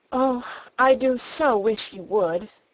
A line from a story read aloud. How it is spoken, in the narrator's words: giving a long sigh, she added